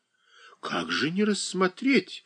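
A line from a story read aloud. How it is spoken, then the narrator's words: Exclaiming. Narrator (Russian): воскликнул Александр Иванович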